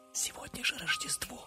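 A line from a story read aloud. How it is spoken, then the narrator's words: Quiet. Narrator (Russian): тихо сказал один из поваров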